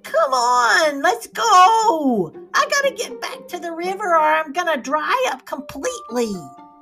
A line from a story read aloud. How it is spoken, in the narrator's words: it sounded like the high squeaky voice of a nymph, said